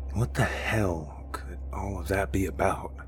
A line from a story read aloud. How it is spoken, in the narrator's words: He asked quietly